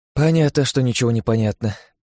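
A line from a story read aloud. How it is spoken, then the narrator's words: Heavy sigh, summing up. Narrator (Russian): тяжело вздохнув, резюмировала Лия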